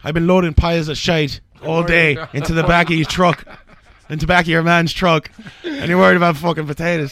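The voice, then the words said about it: Terrible put-on Irish accent. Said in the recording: “Terrible Irish Accents”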